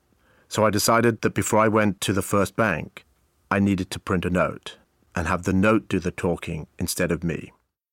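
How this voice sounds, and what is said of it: Distinctive, very noticeable accent. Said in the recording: “I have a very distinctive accent. And living in Southern California, it was very noticeable.”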